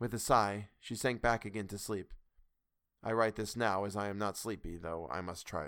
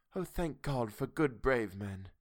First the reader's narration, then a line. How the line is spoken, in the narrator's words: She sighed said softly